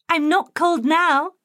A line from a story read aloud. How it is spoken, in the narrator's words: she shouted to Tiger